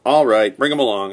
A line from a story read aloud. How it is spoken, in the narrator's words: I replied